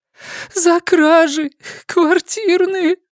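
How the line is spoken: Sobbing. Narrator (Russian): продолжала всхлипывать Светлана

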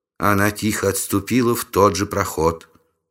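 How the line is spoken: Calm report. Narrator (Russian): спокойно доложила Сун

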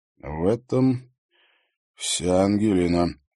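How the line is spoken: Gloomy agreement. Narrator (Russian): мрачно согласился Егор

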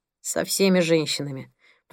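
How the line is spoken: Grumbled. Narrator (Russian): проворчал Пол

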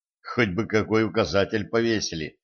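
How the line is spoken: Muttered. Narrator (Russian): пробормотал

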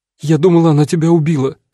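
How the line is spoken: Sobbing woman. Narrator (Russian): всхлипнула актриса

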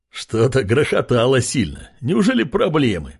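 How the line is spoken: Laughing neighbor. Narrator (Russian): смеялся его сосед из соседней камеры

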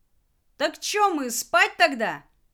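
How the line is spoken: Relieved man shouting. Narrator (Russian): С заметным облегчением в голосе прокричал мужчина

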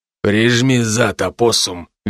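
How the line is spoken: Quiet command. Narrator (Russian): велел он тихо

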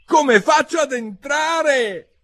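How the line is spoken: Nearly shouted question. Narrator (Italian): chiese Alice quasi gridando

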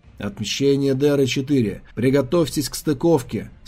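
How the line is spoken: Bored voice. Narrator (Russian): скучным голосом сказал он

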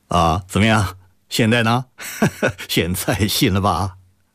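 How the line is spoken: Laughing. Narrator (Chinese): 周宁海笑着说

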